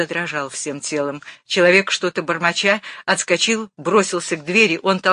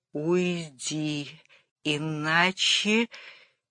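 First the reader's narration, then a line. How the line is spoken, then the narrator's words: Strained and quiet. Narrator (Russian): Батурин трудно и тихо сказал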